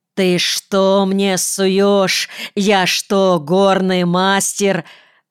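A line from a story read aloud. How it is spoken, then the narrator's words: Angry yell. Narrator (Russian): Заорал он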